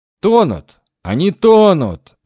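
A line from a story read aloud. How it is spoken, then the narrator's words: Shouting from the left. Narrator (Russian): закричали у меня слева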